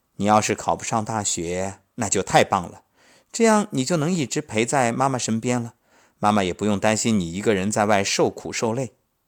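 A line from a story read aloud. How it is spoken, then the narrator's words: Smiling. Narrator (Chinese): 我笑着说道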